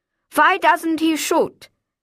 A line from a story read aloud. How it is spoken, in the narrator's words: I called out to Wolfgang